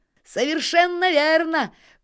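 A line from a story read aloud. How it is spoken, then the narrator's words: Shouting. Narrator (Russian): кричал Нильс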